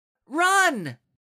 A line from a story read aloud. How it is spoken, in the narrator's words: Wynn yelled